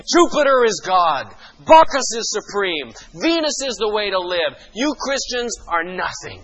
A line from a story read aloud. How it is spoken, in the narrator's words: everything that was shouting around them was saying